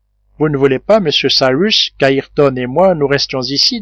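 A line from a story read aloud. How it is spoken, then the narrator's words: Plain. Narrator (French): demanda le marin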